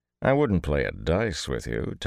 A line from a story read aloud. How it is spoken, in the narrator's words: Tom said dryly